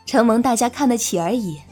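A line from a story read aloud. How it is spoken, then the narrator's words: Admiring. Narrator (Chinese): 云溪赞叹道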